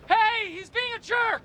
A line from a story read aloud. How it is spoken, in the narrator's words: you can yell